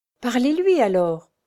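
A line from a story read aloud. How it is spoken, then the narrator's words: Exclaimed. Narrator (French): s'exclama le docteur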